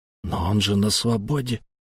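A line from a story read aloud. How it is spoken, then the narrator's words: Quiet. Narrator (Russian): тихо сказал я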